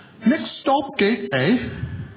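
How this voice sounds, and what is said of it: Put-on British accent. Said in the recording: “a woman came on there ... But this time with a British accent.”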